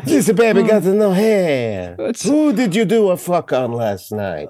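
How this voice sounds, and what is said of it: Put-on Greek accent. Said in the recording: “That is exactly how Greeks talk”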